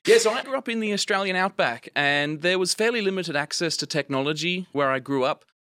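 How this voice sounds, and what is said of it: Australian accent. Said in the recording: “I grew up in the Australian outback, if you can't tell of my accent, not an American.”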